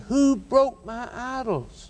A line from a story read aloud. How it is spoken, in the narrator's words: he screamed